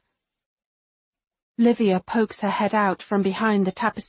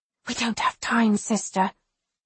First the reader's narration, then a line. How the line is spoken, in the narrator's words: she whispers